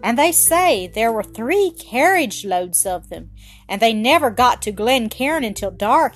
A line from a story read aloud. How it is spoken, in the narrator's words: he cried